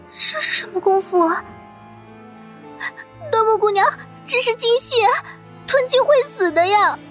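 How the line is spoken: Crying. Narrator (Chinese): 银珠脑子嗡的一声……哭道

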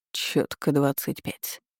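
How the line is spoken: Mocking admiration. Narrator (Russian): насмешливо восхитился

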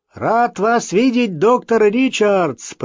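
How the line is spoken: Shouted. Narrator (Russian): прокричал

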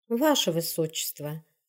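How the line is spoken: Wife's voice, wind-like whisper. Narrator (Russian): голос жены звучал, как шепот ветра

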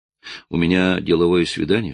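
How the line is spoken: Plain. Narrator (Russian): сказал он

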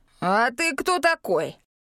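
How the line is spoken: Barking ox. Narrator (Russian): рявкнул рыжий вол

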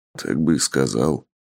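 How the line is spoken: Grumbling. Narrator (Russian): буркнул Тапок

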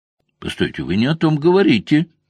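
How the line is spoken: Exclaiming. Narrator (Russian): воскликнул Стивен

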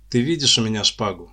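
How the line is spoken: Plain. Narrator (Russian): спросил парень

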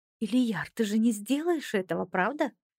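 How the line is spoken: Girl asked softly. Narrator (Russian): Мягко спросила девушка

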